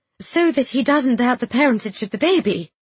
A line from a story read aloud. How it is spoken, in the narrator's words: she quickly added